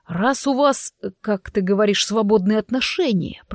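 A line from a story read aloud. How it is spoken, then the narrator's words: Muttered through teeth. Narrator (Russian): процедил Влад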